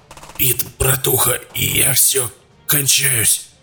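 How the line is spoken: Hoarse wheezing. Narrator (Russian): хрипел Саид

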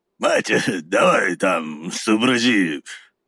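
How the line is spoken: Low booming drone. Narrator (Russian): прогудел он Наталье

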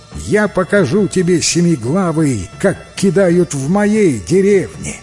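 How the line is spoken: Cheerful shout. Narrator (Russian): принц весело крикнул Диву

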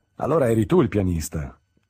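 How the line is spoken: Exclaimed. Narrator (Italian): esclamò

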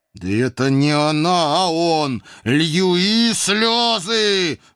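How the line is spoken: Loud yell. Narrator (Russian): в голос заорал я

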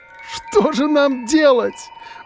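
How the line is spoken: Sobbing, nasal shout, female. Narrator (Russian): Уже не сдерживая рыдания, кричала женщина, закрывая лицо побелевшими руками, отчего ее голос звучал гнусаво

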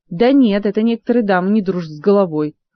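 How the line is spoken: Irritated reply. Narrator (Russian): раздраженно отозвался из телепорта еще не до конца проявившийся Мафей

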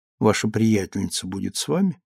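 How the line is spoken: Soft question. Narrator (Russian): Он спросил ее мягко

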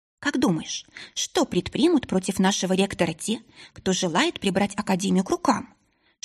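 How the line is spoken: Whispered question. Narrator (Russian): Шепотом поинтересовалась Ларика

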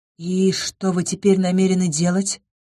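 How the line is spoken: Quiet. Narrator (Russian): тихо спросила я

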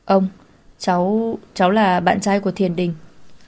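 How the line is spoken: Nervous stammering. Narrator (Vietnamese): Lục Chính Thần tay chân luống cuống, miệng lắp bắp thưa

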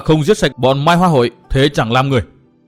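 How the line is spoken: Furious roar. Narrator (Vietnamese): cơn giận của Tư Mã Minh vẫn còn chưa nguôi, chàng gầm thét như một con hổ đói

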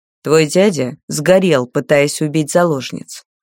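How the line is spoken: Dry statement. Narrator (Russian): сухо сообщил Анвиес

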